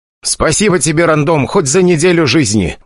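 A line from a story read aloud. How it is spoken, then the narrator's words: Loud bark. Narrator (Russian): гаркнул он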